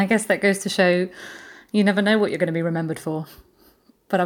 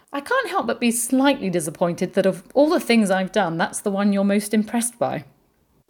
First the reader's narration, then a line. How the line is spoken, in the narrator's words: he laughed and said